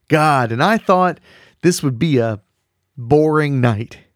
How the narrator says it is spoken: he said excitedly

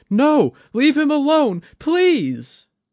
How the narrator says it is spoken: Kaito Mai's voice cried out

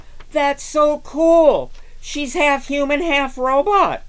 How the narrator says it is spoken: shouted a student

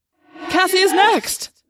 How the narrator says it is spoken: I cried

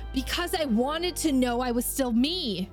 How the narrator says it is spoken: Crow snarls, his teeth bared in a display of fury

